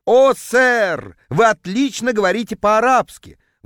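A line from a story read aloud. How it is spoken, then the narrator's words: Vendor's ecstatic howl. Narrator (Russian): восторженно взвыл продавец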